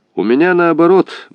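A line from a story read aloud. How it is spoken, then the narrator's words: Cheerful reply. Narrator (Russian): бодро отвечал Отрыганев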